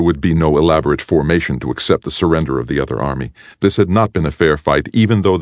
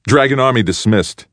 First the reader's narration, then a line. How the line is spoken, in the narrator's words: shouted immediately